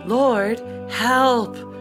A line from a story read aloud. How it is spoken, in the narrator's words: They cried in their trouble